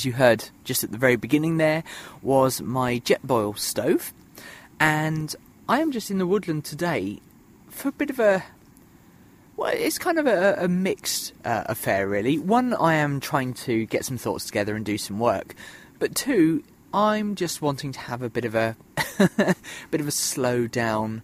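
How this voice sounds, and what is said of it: Voice with a sore throat. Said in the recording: “you can probably tell that I've got a bit of a sore throat today”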